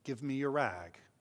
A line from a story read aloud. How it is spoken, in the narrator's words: said gently